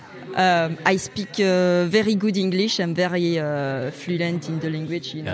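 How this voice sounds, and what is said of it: French accent speaking English. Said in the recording (French): “imiter l'accent du français qui parle qui parle anglais. C'est un truc que je pense que je fais assez bien”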